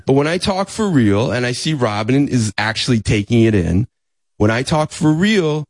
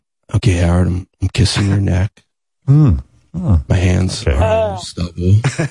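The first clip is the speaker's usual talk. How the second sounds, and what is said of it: Fake sexy voice. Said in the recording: “I'm not even doing a fake sexy voice. ... that's like a phony one”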